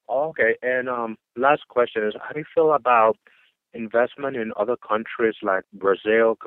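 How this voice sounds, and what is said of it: Dominican Spanish-accented English. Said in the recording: “where is your accent from? ... I'm from the Dominican Republic.”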